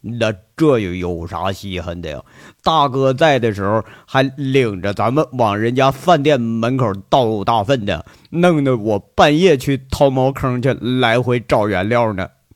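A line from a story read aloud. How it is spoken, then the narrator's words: Laughing, joking. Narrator (Chinese): 王虎子一笑，跟着雷了一句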